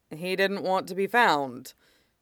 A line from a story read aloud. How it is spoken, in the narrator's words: Sergeant Kyo said dryly